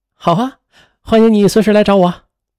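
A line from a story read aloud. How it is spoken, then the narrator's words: Hearty, cheerful. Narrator (Chinese): 魏莎爽朗的一笑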